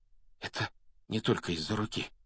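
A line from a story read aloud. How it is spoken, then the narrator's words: Whisper. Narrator (Russian): прошептал Рон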